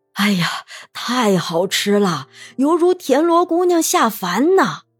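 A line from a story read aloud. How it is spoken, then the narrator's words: Admiring exclamations. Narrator (Chinese): 这一声声的赞叹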